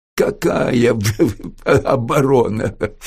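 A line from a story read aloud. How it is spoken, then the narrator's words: Odd chuckle. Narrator (Russian): Бабчук странно хохотнул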